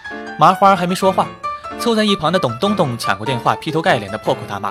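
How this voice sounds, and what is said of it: Usual voice. Nothing is said of it.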